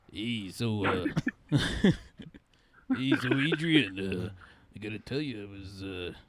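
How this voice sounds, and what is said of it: Imitates another person's voice. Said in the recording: “That's Rocky.”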